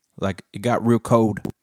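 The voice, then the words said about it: Put-on Southern accent. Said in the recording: “say it in like a southern accent?”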